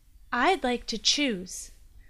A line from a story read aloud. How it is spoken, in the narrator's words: the girl said, her voice steady as an ox pulling a plow